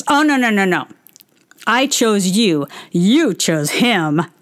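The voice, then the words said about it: Imitates another person's voice. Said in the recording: “in a very Todd voice”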